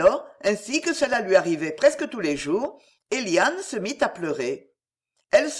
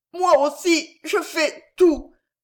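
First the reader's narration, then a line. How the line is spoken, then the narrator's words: Stammering through tears. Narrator (French): balbutia Eliane tout en continuant de pleurer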